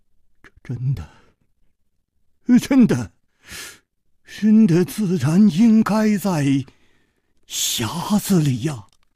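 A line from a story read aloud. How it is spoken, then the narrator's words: Trembling voice. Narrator (Chinese): 公子金半花的面色又变了，他颤声说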